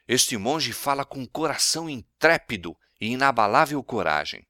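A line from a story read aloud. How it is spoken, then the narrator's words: Admiring exclamation. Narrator (Portuguese): O imperador, possuído de admiração, exclamou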